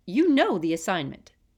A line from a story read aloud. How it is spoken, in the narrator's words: said sternly